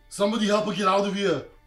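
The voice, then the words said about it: Loud yelling. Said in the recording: “I will yell ... You gotta say it louder ... He'll yell”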